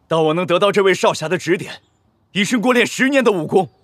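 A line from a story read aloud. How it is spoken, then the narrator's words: Loud. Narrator (Chinese): 离场 大声道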